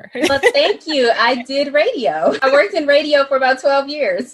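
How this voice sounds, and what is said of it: Polished captivating radio voice. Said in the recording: “you have like the best like radio voice ever ... it's just captivating”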